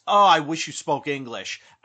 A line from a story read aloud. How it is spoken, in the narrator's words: Bernard yells